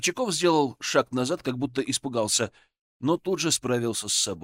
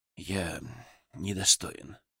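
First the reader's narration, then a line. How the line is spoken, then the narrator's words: Quiet repetition. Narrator (Russian): тихо повторил Иван Горчаков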